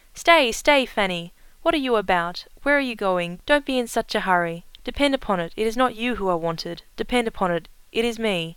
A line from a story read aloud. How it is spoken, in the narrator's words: Norris called out